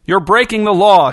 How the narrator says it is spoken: shouted the bus driver from the front of the bus

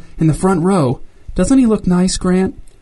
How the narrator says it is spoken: whispered Wanda

